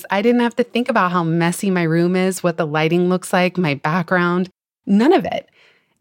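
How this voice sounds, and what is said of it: Slightly creaky voice. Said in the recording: “My voice is still a little creaky from being a little under the weather and also not having spoken very much yet today”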